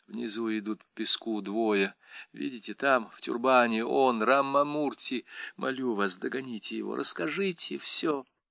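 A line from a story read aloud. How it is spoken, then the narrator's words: Barely audible whisper. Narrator (Russian): Едва слышно, Тилотама шепнула Сандре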